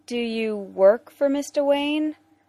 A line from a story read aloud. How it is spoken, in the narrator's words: Will asks hesitantly